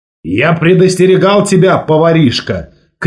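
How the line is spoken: Shout. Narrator (Russian): крикнул Волк Ларсен

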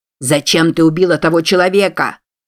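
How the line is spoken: Shouting from behind. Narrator (Russian): прокричал Фенуэй сзади

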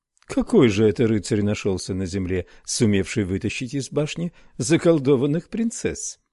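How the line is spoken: Woman laughing. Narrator (Russian): Женщина смеялась

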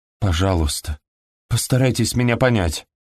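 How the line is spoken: Pleading. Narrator (Russian): Взмолилась

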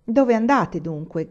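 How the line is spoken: Big man shouting. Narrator (Italian): gridò l'omone

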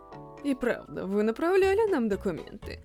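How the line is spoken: Mutter. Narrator (Russian): Пробормотал он

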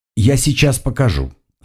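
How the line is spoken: Calm reply. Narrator (Russian): спокойно ответила Шиза

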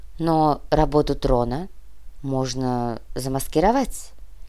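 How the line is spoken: Uncertain. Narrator (Russian): неуверенно произнесла Всеслава

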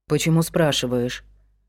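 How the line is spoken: Muffled question. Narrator (Russian): глухо спросил тот

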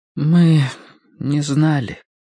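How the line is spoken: Muffled, hollow voice. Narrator (Russian): глухо проговорила Мэри

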